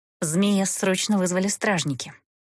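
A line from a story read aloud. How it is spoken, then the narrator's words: Quick whisper. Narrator (Russian): быстро шепнула Эста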